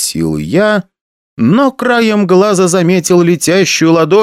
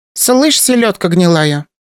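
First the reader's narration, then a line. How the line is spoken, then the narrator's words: Abruptly changed, harsh voice. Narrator (Russian): резко поменялась в голосе Лёля, будто в ней проснулась альтер-эго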